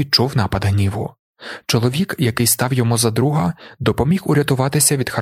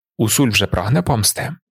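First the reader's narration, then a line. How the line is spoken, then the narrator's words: Plain. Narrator (Ukrainian): запитав Фарок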